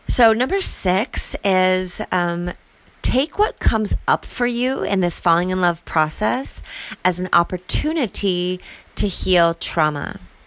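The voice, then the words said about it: Hoarse, strained voice. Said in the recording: “I think I'm like losing my voice,”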